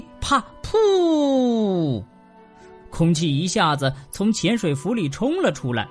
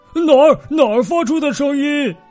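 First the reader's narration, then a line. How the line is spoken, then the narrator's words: Panicked shout. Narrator (Chinese): 他却慌慌张张的大叫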